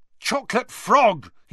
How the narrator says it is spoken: he yelled angrily

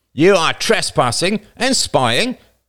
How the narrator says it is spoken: said angrily

